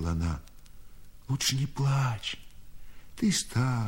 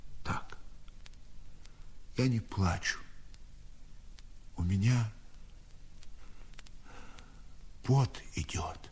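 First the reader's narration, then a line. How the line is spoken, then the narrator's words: Old man whispering. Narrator (Russian): Дед шепотом ответил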